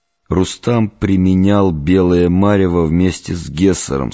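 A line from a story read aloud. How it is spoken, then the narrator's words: Plain. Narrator (Russian): сказал я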